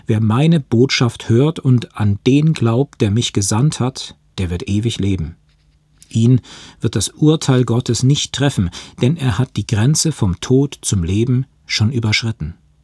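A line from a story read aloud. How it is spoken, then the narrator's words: Slow reading aloud. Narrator (German): las er langsam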